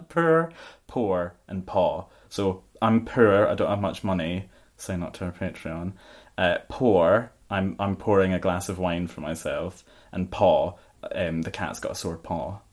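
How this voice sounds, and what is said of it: Scottish accent. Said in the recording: “a Scottish accent”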